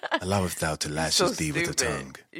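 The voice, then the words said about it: Put-on old-fashioned accent. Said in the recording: “I have to do it the accent and everything.”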